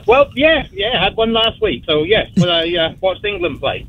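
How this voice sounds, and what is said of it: English accent. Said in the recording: “I love your accent. Where are you from? ... I'm from England.”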